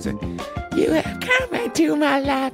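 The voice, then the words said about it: Poorly sung falsetto. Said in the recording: “My falsetto is terrible today.”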